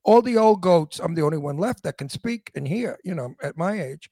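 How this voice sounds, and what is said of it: Old-fashioned Brooklyn accent. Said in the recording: “you sound like New York ... my Brooklyn accent ... My Brooklyn accent is called antique Brooklyn ... it is an antique accent”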